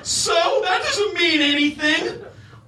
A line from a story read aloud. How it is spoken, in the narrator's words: Adlai exclaimed